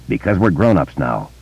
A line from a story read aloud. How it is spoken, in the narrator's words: he muttered